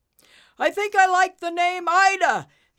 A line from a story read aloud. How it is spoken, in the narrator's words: Taz shouted through the strong winds